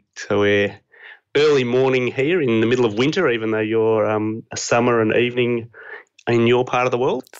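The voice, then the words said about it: Australian accent. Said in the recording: “this accent is Australian for all the people who are trying to guess whether I'm British or Australian. It's um, it's Australian.”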